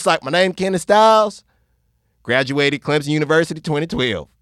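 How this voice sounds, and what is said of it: Fake Southern American accent. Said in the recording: “I started talking with a fake Southern accent.”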